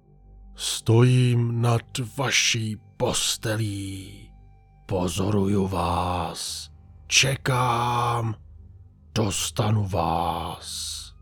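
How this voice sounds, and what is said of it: Very raspy voice, louder than a whisper. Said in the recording (Czech): “Zašeptal jsem tím nejchraplavějším hlasem, kterým jsem dokázal ... Řekl jsem tentokrát hlasitěji.”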